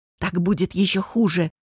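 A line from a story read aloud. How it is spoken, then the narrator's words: Whisper. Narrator (Russian): шепнул он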